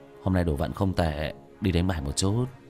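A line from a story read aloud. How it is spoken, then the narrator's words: Astonished mutter. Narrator (Vietnamese): Vương Quân Diệt kinh ngạc lẩm bẩm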